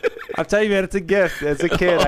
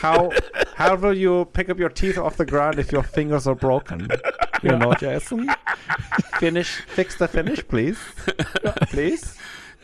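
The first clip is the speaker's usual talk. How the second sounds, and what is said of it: Put-on foreign accent. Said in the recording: “I could just do accents. You tell me a country and I could just do it. ... That was pretty dang good. ... the accent”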